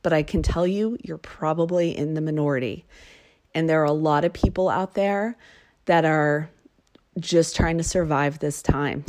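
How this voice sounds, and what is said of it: Emotional, strained voice. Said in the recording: “the change in my voice, something that I'm a little bit emotional about”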